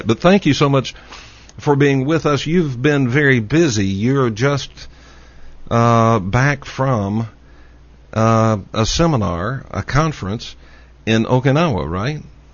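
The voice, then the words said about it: Texas accent. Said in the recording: “The problem is my Texas accent.”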